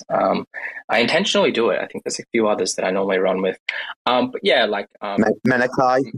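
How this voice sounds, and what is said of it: Australian accent. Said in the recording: “it's just Aussie, friends, accent”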